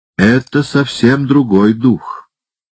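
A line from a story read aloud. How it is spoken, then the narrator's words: Stern. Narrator (Russian): строго сказал мистер Рикрофт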